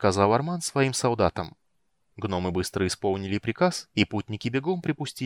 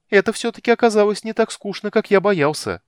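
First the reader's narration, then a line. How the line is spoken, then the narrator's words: Cheerful shout. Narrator (Russian): бодро выкрикнул Тасс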